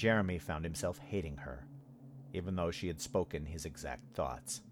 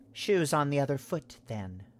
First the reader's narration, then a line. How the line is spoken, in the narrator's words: Addie said coldly